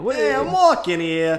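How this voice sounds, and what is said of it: Put-on Brooklyn accent. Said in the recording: “The Brooklyn accents are very easy to do.”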